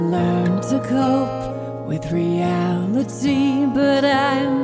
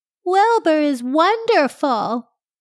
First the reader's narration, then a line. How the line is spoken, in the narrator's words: I called out